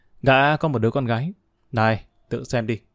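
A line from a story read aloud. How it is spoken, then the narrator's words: Smiling speech. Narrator (Vietnamese): Đen mỉm cười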